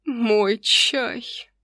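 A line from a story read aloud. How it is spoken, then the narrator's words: Moan. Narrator (Russian): простонал Норрелл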